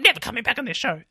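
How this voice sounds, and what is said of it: Imitates another person's voice. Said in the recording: “apologize for that impression.”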